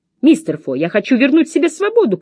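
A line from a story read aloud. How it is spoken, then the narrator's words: Shouting. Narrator (Russian): крикнула я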